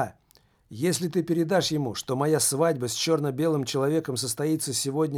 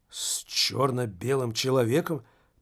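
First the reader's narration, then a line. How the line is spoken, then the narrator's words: Astonished mutter. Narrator (Russian): пораженно пробормотал Иван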